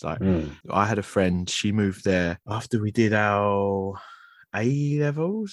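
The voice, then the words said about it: Gruff Cockney English accent. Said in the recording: “this sort of Cockney gruff ... my accent is a massive part of my identity”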